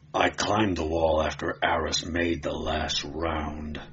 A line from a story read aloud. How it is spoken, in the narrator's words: Conan growled